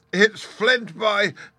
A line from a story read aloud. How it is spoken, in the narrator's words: cried Mary